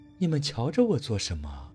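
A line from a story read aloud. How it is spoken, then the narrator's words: Soft voice. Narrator (Chinese): 柔声说道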